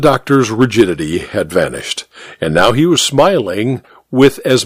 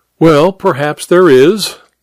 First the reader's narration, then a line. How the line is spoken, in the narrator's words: Hare laughed amiably